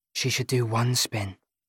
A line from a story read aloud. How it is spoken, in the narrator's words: she whispers